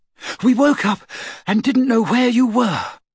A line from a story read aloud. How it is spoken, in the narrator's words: she said breathlessly